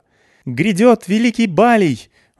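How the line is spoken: Thin childlike shout. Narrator (Russian): выкрикнула детским тонким голоском Сумерла

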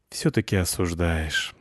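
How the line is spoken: Sigh. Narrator (Russian): вздохнула она

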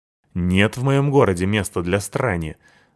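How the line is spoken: Angry man. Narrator (Russian): зло сказал мужик

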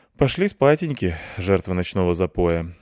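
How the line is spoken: Sighing. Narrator (Russian): вздохнул я

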